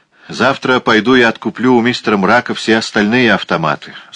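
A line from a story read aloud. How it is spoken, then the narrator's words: Plain. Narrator (Russian): сказал Дуглас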